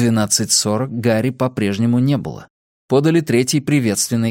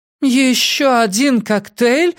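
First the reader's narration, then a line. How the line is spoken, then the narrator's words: Groaning. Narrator (Russian): застонала Эми Пратт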